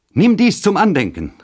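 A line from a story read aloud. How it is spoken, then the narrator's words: Exclaimed. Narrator (German): rief aus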